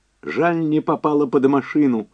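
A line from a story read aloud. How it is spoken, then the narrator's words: Shrill angry self-hating shout. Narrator (Russian): выкрикнула она пронзительным и злым голосом, с такой ненавистью к себе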